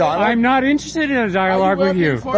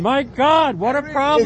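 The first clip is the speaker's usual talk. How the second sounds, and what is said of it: Screaming, agitated voice. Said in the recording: “Why are you screaming?”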